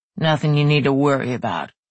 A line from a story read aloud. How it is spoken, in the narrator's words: Tegan said gruffly